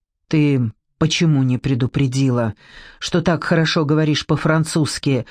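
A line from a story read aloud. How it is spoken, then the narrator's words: Growl masking embarrassment. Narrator (Russian): зарычал, пытаясь за строгостью скрыть смущение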